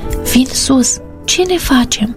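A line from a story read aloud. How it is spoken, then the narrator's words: Whispering. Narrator (Romanian): șopti Cătălin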